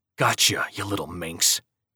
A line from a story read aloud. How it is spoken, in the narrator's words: hissed close to her ear, and louder